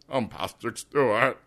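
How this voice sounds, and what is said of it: Imitates another person's voice. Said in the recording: “you need to do Patrick Stewart's voice... That's not the worst impression you've ever done.”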